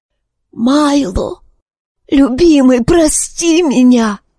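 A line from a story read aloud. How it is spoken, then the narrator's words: Hoarse croak. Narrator (Russian): прохрипела она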